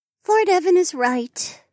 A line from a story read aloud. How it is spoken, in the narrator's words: Juniper sighed